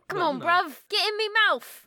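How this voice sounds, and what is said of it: Put-on Cockney London accent. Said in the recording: “that's like Cockney. Accent. ... It's like full on Attack the Block John Boyega. ... it's not Australian.”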